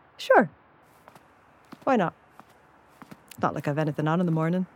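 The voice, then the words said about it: Irish accent. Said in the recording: “they can't get enough of my accent. It's so Irish”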